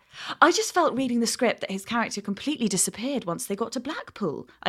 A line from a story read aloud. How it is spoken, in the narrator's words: I continued smoothly